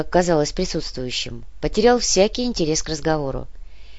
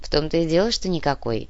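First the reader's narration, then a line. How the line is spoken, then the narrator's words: Sad reply. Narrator (Russian): грустно ответил Нав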